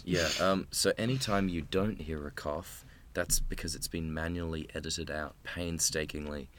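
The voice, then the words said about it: Hoarse, raspy, nearly lost voice. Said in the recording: “lost my voice, um, as you might be able to hear. I do the Scarlett Johansson voice”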